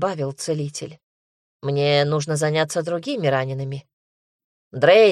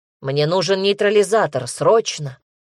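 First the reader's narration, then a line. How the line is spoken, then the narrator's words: Low, near-growling voice. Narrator (Russian): низкий, практически рычащий голос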